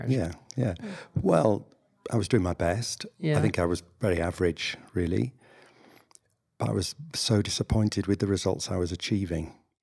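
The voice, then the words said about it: Northern English accent. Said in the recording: “as we can tell by your accent, you are from England ... the north of England”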